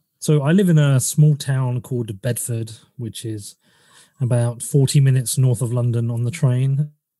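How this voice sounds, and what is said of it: Noticeable accent. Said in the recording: “you have an accent.”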